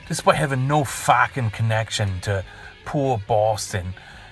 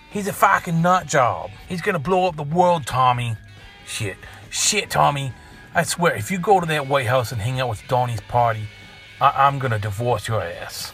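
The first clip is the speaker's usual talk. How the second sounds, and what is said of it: Put-on Boston accent, poorly done. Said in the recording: “has a fucking Boston accent. Okay, fine, yeah. That probably sucked ... give me your own damn Boston accent.”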